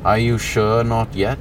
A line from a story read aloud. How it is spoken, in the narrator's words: He asked, his voice low and gravelly